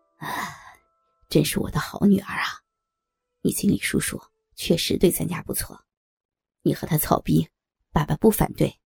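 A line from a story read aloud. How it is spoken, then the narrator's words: Father, moved long sigh. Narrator (Chinese): 刘刚听到女儿居然如此的孝顺懂事，长叹一声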